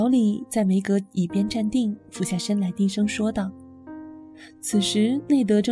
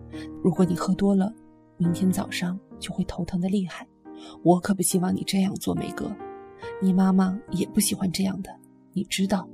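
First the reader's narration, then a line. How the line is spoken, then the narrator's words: Low murmur. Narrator (Chinese): 老李 低声说道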